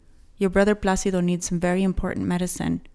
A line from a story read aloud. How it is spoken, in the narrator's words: he said quickly